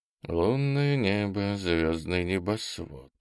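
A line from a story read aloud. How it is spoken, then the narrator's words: Soft half-voiced singing. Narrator (Russian): вполголоса запел дружинник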